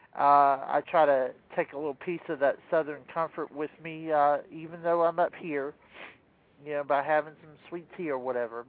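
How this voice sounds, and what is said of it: Southern US country accent. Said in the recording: “you can probably hear my country accent coming out”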